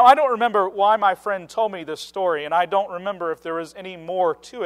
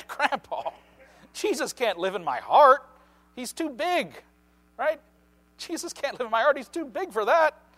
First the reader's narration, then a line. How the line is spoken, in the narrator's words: the little girl immediately burst out laughing and said